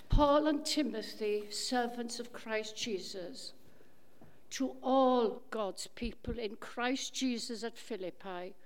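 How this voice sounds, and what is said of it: Slightly Welsh accent. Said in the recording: “that lovely, slightly Welsh accent. Comes over so beautifully”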